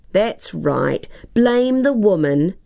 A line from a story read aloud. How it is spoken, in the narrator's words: exclaimed Tara